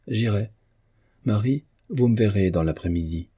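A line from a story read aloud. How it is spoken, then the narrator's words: Decisive tone. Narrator (French): dit Marguerite d'un ton décidé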